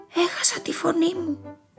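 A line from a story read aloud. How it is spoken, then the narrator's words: Sad whisper. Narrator (Greek): ψιθύρισε λυπημένα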